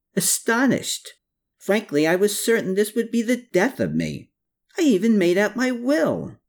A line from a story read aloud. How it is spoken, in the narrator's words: he yelped